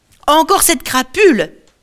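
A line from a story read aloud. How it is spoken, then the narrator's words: Resentful shout. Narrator (French): crie Poséidon, qui n'a toujours pas digéré ce qui est arrivé à son fils le Cyclope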